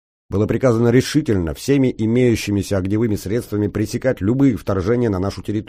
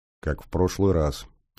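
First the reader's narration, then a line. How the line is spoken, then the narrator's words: Quiet. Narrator (Russian): тихо сказал я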